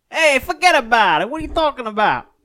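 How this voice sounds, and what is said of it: Put-on American Italian accent. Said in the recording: “Do an American Italian accent. ... American Italian accent.”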